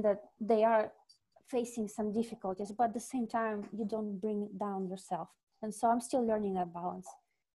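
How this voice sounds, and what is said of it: Russian accent. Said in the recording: “you're like a real Russian. Like, you have a Russian accent.”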